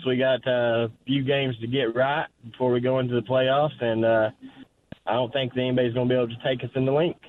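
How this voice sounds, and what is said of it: Southern American accent. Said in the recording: “I love your accent ... That is the most Southern Eagles fan I've ever heard in my life.”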